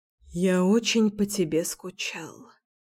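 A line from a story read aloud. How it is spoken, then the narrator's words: Mumble. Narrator (Russian): пробормотал он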